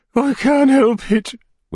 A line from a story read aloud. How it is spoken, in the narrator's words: whimpered the lady